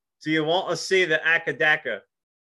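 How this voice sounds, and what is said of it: Attempted Australian accent, sounds cockney. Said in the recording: “try it with the Aussie accent ... It was like a British cockney”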